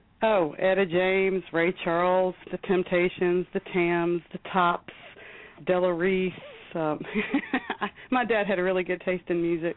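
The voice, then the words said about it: Southern US drawl. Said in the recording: “You can hear it in the voice. You hear the drawl? ... I can hear the drawl. It comes out.”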